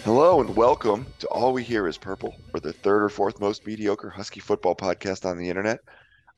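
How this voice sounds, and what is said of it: Hoarse voice. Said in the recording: “I'm a bit hoarse. I apologize for my voice. ... I assume you're hoarse”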